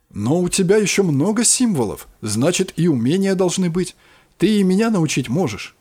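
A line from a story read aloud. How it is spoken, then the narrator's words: Exclamation. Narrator (Russian): воскликнул я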